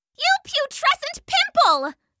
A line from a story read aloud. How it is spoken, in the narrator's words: shouted Salandra